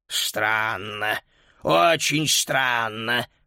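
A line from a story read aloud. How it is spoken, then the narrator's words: Muttered. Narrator (Russian): пробормотал он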